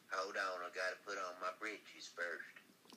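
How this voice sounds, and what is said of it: Exaggerated Southern US accent. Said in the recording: “Oh, you're from King of the Hill. ... No, I'm from North Carolina. ... Where'd you get that accent?”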